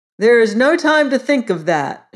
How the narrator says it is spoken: shouted the boy who was clever

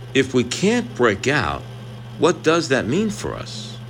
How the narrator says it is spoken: Alejandra softly says

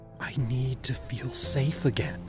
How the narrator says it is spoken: I whispered

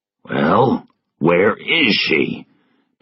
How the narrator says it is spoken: Pettigrew asked angrily

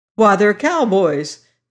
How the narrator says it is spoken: exclaimed another passenger

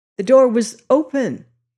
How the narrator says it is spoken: he stammered

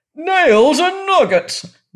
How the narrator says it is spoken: roared the king

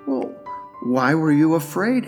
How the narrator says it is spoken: asked God

